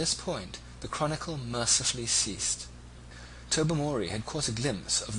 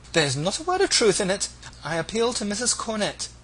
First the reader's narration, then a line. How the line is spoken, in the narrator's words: exclaimed the discomfited Agnes